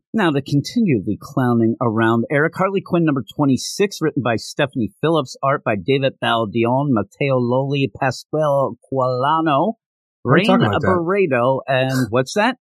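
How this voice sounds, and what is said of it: Put-on announcer voice. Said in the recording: “Why are you talking like that? ... I was doing my announcer voice.”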